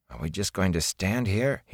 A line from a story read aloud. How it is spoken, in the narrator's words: he mumbled